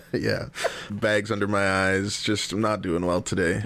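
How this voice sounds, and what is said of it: Sounds sick. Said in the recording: “you sound sick.”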